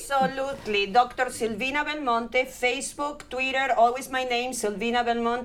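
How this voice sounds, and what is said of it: Strong non-native English accent. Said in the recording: “with my accent, nobody will understand.”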